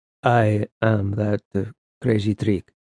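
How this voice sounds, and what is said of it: Thick foreign accent. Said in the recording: “his accent thickened the more he flirted”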